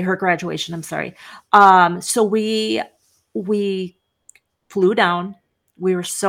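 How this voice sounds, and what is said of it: Usual voice. Nothing is said of it.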